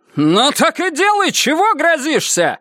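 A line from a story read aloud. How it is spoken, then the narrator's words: Barked reply. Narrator (Russian): рявкнула она в ответ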